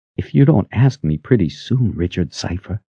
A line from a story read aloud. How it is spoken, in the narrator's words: she whispered